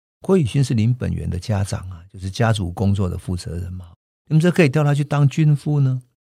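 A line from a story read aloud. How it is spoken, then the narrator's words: Sarcastic. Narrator (Chinese): 人们讽刺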